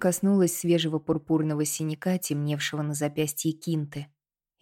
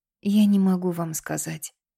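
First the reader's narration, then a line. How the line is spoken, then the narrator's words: Exhausted voice. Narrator (Russian): ответила Кинта измученным голосом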